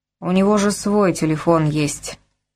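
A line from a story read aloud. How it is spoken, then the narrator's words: Lazy mutter through teeth. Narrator (Russian): лениво процедил офицер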